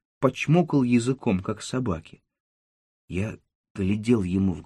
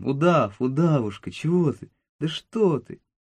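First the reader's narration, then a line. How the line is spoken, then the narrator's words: Cheerful voice. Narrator (Russian): сказал веселым голосом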